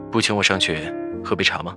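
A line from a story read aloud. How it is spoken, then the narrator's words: Cool, indifferent. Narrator (Chinese): 赵以静淡淡道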